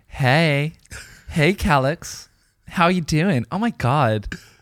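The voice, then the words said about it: Put-on LA girl voice. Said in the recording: “I would do an accent ... A girl in LA ... how does she say it?”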